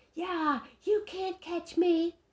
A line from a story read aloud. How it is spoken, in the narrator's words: yelled